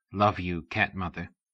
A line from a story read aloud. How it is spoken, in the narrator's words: whispered the Panther Modern's link man